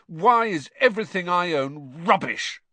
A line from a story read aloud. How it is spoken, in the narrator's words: said Ron furiously